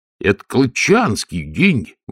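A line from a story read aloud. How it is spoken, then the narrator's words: Exclamation. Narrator (Russian): воскликнул Колон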